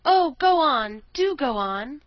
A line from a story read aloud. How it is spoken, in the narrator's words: the children cried out